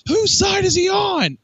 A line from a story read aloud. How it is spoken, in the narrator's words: He screamed